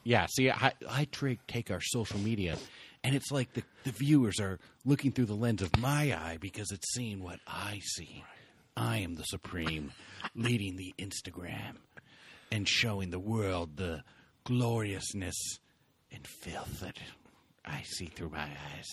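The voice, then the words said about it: Imitates another person's voice. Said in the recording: “You're doing your James Lipton voice.”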